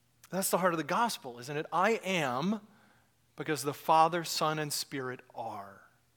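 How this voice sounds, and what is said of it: American accent. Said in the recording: “this dumb American accent”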